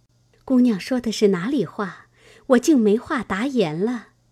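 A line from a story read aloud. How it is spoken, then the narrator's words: Laughing. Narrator (Chinese): 平儿笑道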